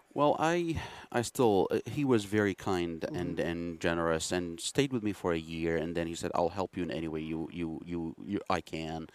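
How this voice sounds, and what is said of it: Iraqi Middle Eastern accent. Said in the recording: “a Middle Easterner. ... You're an Iraqi. ... You have an accent.”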